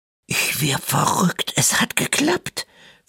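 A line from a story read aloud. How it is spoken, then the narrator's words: Whispering. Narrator (German): flüsterte Tore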